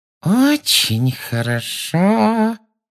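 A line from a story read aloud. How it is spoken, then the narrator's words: Menacing saccharine voice. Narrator (Russian): сказала она своим самым угрожающим приторным голоском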